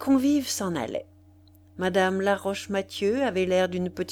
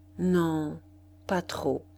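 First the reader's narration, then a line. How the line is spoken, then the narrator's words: Slow reply. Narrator (French): Madame Duroy répondit lentement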